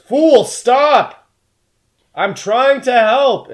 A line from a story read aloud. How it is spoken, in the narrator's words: yells